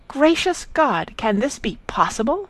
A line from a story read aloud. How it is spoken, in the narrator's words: Marianne, in an ecstasy of indignation, cried